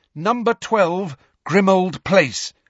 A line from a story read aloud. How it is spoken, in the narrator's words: Harry said loudly and clearly